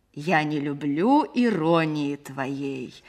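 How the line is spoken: Affected thick hammy voice. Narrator (Russian): сказал актер нарочитым жирным голосом плохого чтеца

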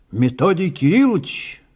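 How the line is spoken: Several voices shouting. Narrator (Russian): снова выкрикнуло сразу несколько голосов

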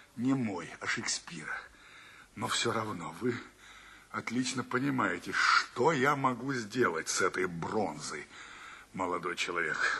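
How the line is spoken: Dejected voice. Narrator (Russian): добавляет он упавшим голосом

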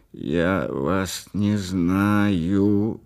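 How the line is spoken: Creaky voice. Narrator (Russian): ответил я скрипучим голосом

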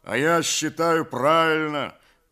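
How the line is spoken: Deep bass voice. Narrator (Russian): басил Кондрат

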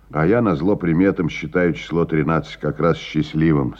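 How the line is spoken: Plain. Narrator (Russian): сказал Лопатин

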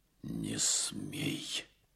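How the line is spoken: Breathless agitated near-whisper. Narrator (Russian): проговорил царь почти шепотом и задыхаясь от волнения

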